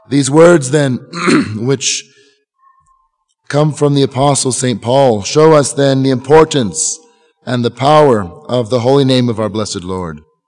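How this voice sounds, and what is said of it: Hoarse, fading voice. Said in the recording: “pardon my voice today. ... I'm losing my voice,”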